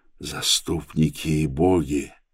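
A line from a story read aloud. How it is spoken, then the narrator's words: Whisper. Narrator (Russian): шептал я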